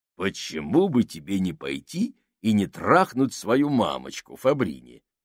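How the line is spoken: Growled. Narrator (Russian): прорычал Сакс

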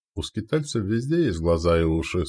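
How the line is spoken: Calm reply. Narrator (Russian): спокойно ответил лидер

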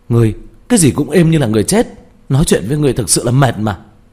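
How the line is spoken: Furious exclamation. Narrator (Vietnamese): Diệp Thiếu Dương tức giận đến không chịu được kêu lên

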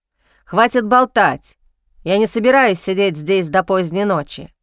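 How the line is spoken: Snorting, repeating. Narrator (Russian): Лея фыркнула и повторила

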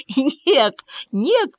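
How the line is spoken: Barely speaking through laughter. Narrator (Russian): едва произнес сквозь смех

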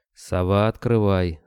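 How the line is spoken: Dry. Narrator (Russian): сухо сказал Кобылин

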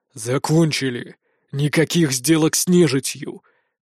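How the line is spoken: Grim, curt man. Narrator (Russian): Так же мрачно бросил второй мужик

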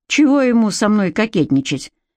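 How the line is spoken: Gloomy mutter. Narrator (Russian): мрачно пробормотал Тоши

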